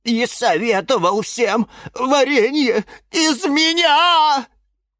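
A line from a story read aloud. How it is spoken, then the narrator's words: Sobbing. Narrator (Russian): рыдала Розалия Львовна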